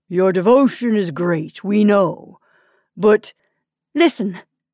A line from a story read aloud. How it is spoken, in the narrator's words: exclaimed the lady